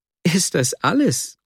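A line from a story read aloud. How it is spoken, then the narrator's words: Laughing interruption. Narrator (German): unterbrach lachend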